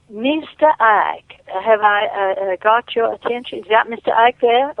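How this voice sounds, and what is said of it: Put-on accent. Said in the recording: “Let me get my accent.”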